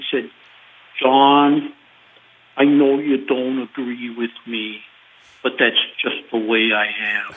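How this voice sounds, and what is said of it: Poor imitation of another person's voice. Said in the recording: “worst Governor Ventura impression”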